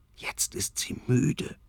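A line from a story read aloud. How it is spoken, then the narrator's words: Whispering. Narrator (German): flüstert Tobias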